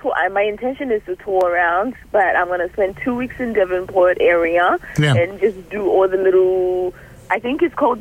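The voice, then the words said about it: African New Zealander accent. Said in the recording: “I'm trying to pick up your accent. Where's that from? ... I am an African New Zealander.”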